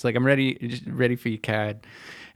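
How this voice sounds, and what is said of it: Slight put-on Boston accent. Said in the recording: “the only thing that I'm ever going to do in a slight Bostonian accent”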